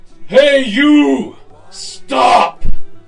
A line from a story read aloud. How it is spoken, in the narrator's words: Ungli Mal yelled out in a ferocious, awful voice